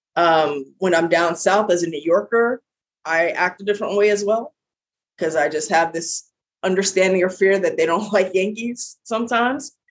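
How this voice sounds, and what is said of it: Heavy New York accent. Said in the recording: “I have a very heavy New York accent.”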